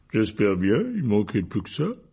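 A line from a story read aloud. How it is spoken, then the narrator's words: Grumbled. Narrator (French): grogna Hagrid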